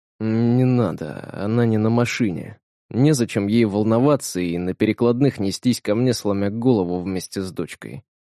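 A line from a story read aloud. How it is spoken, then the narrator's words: Whisper. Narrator (Russian): прошептал Капрал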